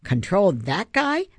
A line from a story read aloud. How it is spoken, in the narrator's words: Ben squeaked